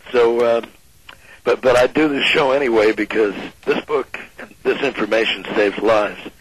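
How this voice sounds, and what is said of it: Strained, impaired voice. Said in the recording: “my voice is not quite what it usually is ... it's a struggle for me to talk”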